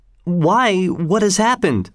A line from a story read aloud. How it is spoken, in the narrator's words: cried everybody